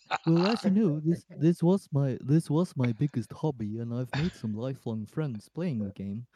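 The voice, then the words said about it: Bad put-on Liverpudlian accent. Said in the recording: “That's not what he sounds like. That was a bad Liverpudlian accent I told you about. The yellow submarine accent.”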